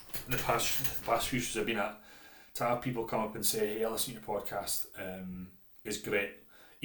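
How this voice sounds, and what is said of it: Scottish accent, monotonous delivery. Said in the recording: “this Scottish monotonous accent maybe isn't the easiest thing to listen to”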